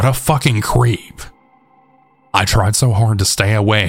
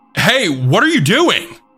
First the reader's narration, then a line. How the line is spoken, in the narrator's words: yelled